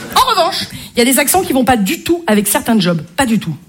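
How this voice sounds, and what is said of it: Marseille French accent. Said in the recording (French): “Je m'y connais en accent, je suis marseillaise ... l'accent marseillais”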